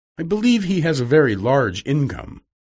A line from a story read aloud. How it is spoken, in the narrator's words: answered Amelia